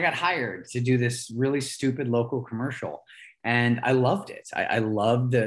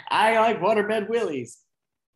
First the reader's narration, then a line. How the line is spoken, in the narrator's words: I started jumping up and down on this bed and I screamed